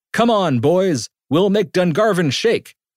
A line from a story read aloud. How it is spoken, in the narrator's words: As he danced, Murphy shouted